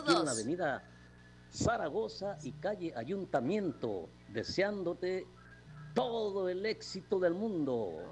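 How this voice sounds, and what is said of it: Radio announcer voice. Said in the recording (Spanish): “tenemos voz de locutor”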